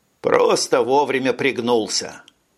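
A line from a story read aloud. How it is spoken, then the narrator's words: Joking. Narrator (Russian): пошутил Брейн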